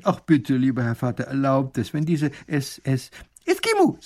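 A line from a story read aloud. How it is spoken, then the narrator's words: Plain. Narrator (German): sagt der Eskimo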